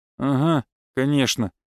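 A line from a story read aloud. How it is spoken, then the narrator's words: Grumbled reply. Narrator (Russian): буркнул он в ответ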